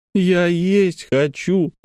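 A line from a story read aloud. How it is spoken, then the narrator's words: Whining. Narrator (Russian): захныкала Лекси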